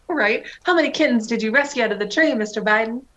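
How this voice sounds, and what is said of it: Exaggerated put-on Southern belle accent. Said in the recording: “I like kind of transitioned into a Scarlett O'Hara southern accent”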